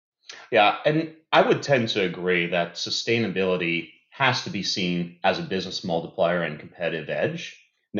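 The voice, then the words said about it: American accent. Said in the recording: “if you can't tell by the accent out there, I'm based in the US”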